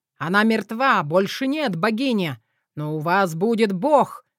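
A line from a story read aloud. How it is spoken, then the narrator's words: Roar. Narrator (Russian): взревел Эдуард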